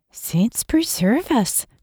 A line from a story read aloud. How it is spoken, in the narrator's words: Kathleen whispered